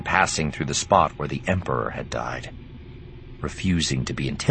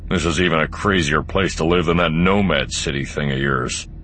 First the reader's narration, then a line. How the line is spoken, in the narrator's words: he growled